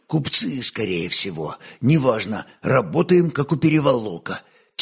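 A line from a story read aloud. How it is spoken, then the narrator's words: Quiet remark. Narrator (Russian): тихо обронил Скоморох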